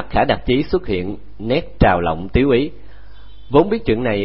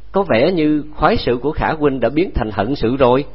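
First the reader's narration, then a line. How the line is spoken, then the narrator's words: Laughing loudly. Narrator (Vietnamese): Sa Thành Công cất tiếng cười lớn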